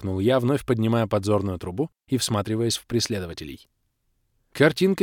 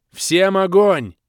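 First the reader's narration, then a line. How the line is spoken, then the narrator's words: Shouted. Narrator (Russian): крикнул я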